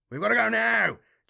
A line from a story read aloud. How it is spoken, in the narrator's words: Chalice shouted